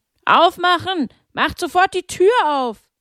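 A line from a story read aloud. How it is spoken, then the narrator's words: Several men bellowing. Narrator (German): mehrere Männer brüllten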